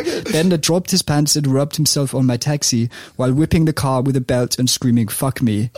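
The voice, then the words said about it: English spoken in a Danish accent. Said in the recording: “Speak it in English in a Danish accent. ... Great accent as well.”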